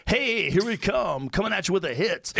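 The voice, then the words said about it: Cheesy morning radio DJ voice. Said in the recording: “You might be a morning DJ from fucking Cincinnati.”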